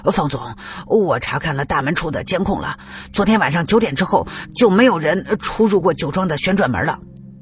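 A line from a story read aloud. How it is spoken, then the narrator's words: Breathless. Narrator (Chinese): 一个保安气喘吁吁的 说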